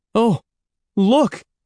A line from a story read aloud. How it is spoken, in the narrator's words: Evan cried to Andy